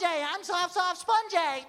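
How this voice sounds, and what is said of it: Cartoon character voice. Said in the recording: “could you do the voice? ... SpongeBob”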